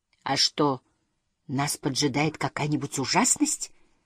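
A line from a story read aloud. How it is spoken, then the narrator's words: Whispered. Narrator (Russian): прошептал Сниф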